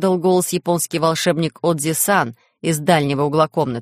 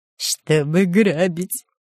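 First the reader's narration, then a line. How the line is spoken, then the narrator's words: Cheerful giggle. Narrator (Russian): весело хихикнул шпион Дырка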